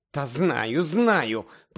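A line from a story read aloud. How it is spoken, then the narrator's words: Groaned. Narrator (Ukrainian): простогнала місіс Уізлі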